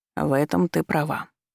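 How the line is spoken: Deadly calm. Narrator (Russian): отозвался он убийственно спокойно

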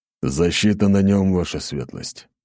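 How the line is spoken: Grumbling. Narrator (Russian): проворчал Ратай

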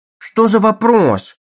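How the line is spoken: Mother's exclamation. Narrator (Russian): воскликнула мать

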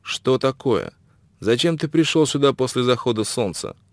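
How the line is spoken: Stern question. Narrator (Russian): Шелдон строго спросил

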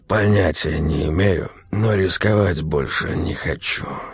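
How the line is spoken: Hoarse male voice. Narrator (Russian): сипло ответил он

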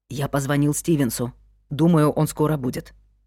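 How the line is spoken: Whisper. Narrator (Russian): шепнул Люк

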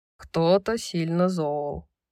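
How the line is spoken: Wry snort. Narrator (Russian): хмыкнул ангел

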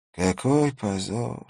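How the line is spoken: Tearful sighing old man. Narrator (Russian): вздохнул старик, и его глаза наполнились слезами

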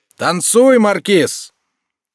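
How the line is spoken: Shout from a crowd. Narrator (Russian): кто-то закричал в народе

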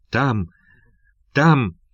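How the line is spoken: Strained, choked voice. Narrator (Russian): отвечал погонщик сдавленным голосом

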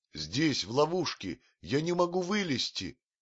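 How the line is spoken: Shouting. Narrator (Russian): закричал Маугли

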